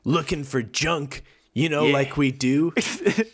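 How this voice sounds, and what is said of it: Tough-sounding voice. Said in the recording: “in a tough sounding voice.”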